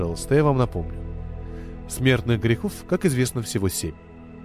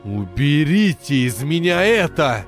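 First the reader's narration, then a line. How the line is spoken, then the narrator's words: Screamed. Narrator (Russian): закричал Штейн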